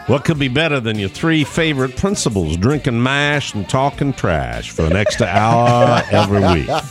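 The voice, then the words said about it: Slight Southern twang. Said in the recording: “That might work better with a slight southern twang. ... Better!”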